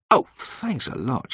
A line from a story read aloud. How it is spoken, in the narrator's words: she said crossly